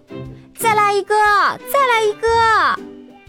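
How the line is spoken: Loud cheering crowd. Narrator (Chinese): 观众们大声欢呼

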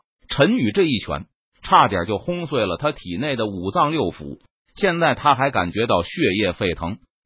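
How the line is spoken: Low deep voice. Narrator (Chinese): 不由得沉声道

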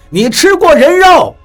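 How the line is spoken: Loud question. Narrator (Chinese): 我大声地问道

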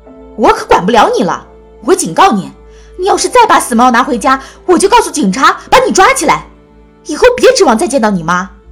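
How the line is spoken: Gasping shout. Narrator (Chinese): 小智吸着凉气喊道

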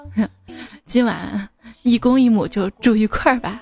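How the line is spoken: Teasing, leering laugh. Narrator (Chinese): 这局长吧，想占女职员便宜，就戏谑的笑着说

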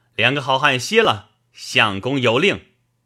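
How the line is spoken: Calling out. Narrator (Chinese): 棋牌官飞来叫道

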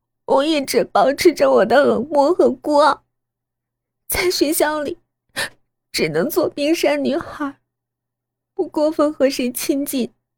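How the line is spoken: Tearful. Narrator (Chinese): 我带着哭腔继续说

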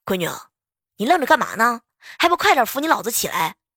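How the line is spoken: Sudden shout. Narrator (Chinese): 我老爸突然之间大喊一声

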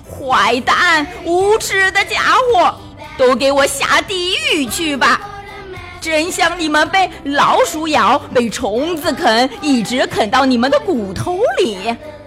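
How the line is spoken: Shouting. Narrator (Chinese): 桌子大叫着

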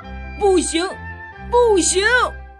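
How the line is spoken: Shouting. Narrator (Chinese): 他对着比利大叫

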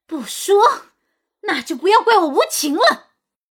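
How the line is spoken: Uneasy loud voice. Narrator (Chinese): 齐鸾也变得不安起来，大声道

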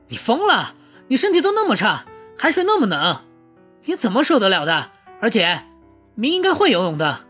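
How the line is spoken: Shouting. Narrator (Chinese): 秦宇航大吼

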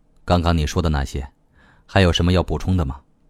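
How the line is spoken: Icy reply. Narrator (Chinese): 乔娜冰冷冷的答道

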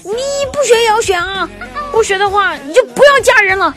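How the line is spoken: Angry shout. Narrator (Chinese): 我老爸就气得大声的对我吼道

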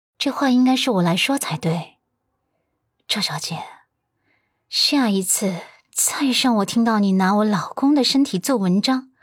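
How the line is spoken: Cold warning. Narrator (Chinese): 阮南希冷声警告道

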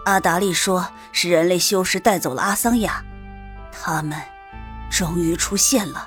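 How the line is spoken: Deep grave voice. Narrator (Chinese): 洛风沉声道

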